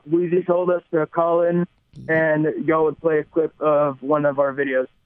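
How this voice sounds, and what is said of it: Southern US accent. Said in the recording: “if you can tell by our accents, we're from the South.”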